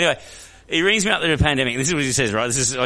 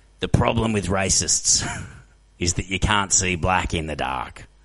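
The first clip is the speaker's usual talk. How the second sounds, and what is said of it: Imitating a friend's voice. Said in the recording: “that's how his voice is ... oh, you see, it's him”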